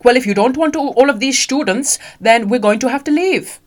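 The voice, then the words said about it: Weak put-on German accent. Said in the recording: “that wasn't a very good German accent, was it?”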